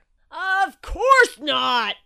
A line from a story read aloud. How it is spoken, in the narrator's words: roared Shark